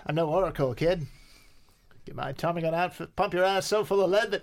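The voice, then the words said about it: 1920s gangster voice. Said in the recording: “I'm going to do the rest of the 20s in this voice.”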